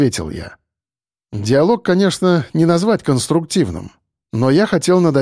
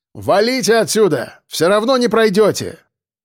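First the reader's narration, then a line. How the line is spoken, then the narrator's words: Barked after pause. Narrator (Russian): Кирпич помолчал, а потом рявкнул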